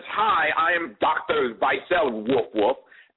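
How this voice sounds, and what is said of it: Mock German accent mixed with barking. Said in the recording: “German accent that sounded like a mixture of German and dog”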